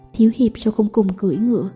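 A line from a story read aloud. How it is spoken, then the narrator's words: Soft laugh. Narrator (Vietnamese): khẽ cười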